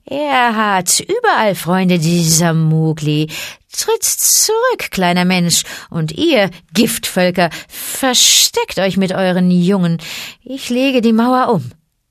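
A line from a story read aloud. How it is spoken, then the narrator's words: Giggling. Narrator (German): kicherte Ka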